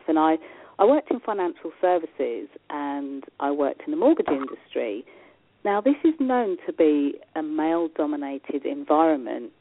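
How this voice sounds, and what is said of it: English accent. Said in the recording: “where is that accent from? I'm dialing in from England. And I'm born and bred in England”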